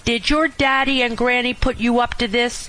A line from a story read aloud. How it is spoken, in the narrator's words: she snapped